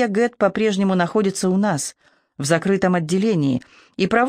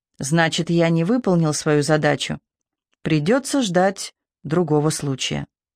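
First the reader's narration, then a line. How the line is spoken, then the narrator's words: Calm. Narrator (Russian): он спокойно промолвил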